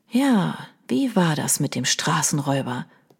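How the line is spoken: Soft repetition. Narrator (German): wiederholte Leo leise

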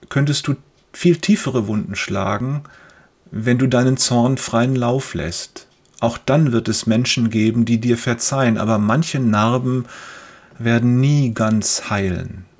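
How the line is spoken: Father continuing. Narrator (German): fährt sein Vater fort

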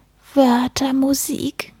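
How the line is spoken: Sighing. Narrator (German): er seufzte

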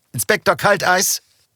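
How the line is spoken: Calling from distance. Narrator (German): rief ein Kollege aus dem Foyer

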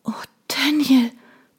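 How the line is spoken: Panting. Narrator (German): keuchte ich

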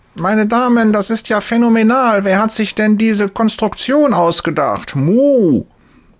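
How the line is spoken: Loud call. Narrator (German): Laut ruft sie

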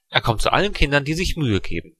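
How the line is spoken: Plain answer. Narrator (German): antwortete meine Mutter

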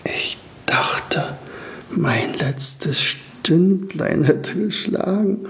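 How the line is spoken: Whispered. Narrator (German): flüsterte Staubi

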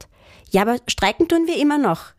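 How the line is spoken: Called out quickly. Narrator (German): rief Lotta schnell

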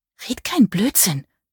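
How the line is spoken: Hissing. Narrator (German): zischte sie

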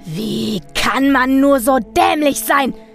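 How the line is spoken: Yelling at full volume. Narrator (German): schrie er aus voller Kehle

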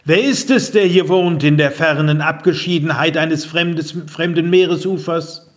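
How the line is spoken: Loud call. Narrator (German): Gilgamesch rief laut

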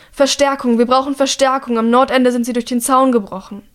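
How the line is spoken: Calling out while running. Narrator (German): Er ruft

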